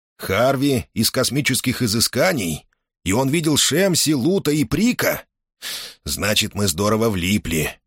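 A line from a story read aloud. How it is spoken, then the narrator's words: Shocked mumbling. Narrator (Russian): потрясенно пробормотал он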